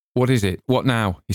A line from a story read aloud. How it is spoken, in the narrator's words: he said sharply